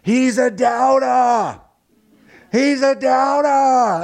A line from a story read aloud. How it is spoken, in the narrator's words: you hear him yelling